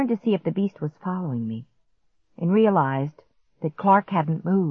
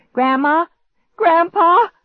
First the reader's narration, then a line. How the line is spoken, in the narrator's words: I cried out